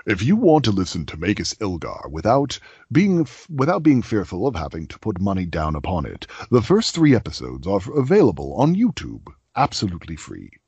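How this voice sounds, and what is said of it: Movie trailer announcer voice. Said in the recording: “in my best trailer voice”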